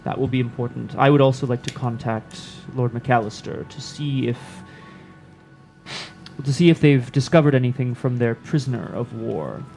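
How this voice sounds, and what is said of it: Good imitation of a king's voice. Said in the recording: “That was a very good impression of the High King.”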